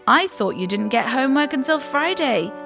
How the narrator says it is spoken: said Mum

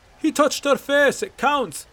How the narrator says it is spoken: came Bracknell's shouts

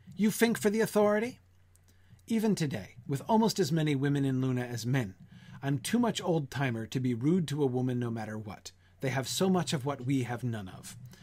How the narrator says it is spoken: She said sharply

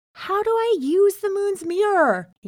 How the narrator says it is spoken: He cried

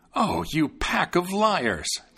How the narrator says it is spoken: the tailor exclaimed

